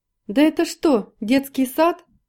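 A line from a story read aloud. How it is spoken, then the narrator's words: Tipsy student shouting. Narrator (Russian): кричал прежде всех захмелевший студент по прозвищу Тихоня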